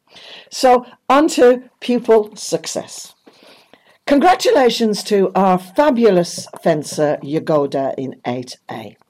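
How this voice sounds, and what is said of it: Croaky, strained hoarse voice. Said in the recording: “my voice is a bit croaky, but I was doing a lot of shouting and cheering last night ... I can hardly talk”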